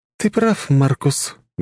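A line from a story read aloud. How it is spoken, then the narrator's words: Sad sigh. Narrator (Russian): грустно вздохнула Виктория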